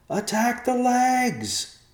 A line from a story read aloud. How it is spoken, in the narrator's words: the brothers yelled as they ran